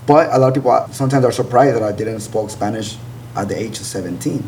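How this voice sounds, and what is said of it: Heavy non-native English accent. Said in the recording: “I know my accent is pretty heavy. I have a pretty heavy accent.”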